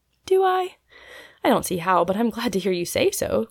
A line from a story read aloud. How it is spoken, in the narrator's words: cried Polly, much touched